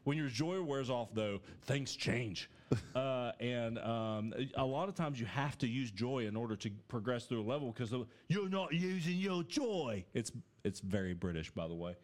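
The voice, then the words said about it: Put-on British accent. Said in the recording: “You've really been working on that accent, man. ... It's gotten better since the last time”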